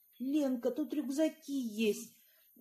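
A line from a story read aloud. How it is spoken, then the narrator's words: Joyful exclamation. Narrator (Russian): радостно воскликнула мать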